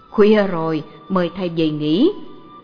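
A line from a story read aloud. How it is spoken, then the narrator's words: Laughing loudly. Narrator (Vietnamese): Ông ... cười to, nói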